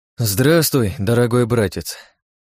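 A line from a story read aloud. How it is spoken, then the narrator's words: Sighing. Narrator (Russian): вздохнул я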